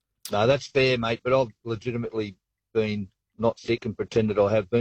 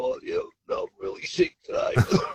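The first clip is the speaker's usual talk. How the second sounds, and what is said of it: Imitates another person's voice. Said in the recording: “my best Russell Crowe impersonation”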